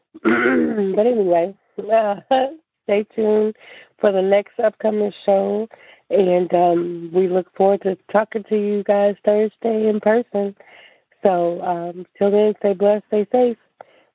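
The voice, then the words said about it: Hoarse, fading voice. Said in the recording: “I'm losing my voice, kind of”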